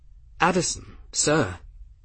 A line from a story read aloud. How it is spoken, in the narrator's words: Gwen stammered